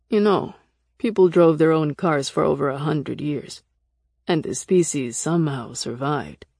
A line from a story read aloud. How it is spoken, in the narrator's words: Nick said dryly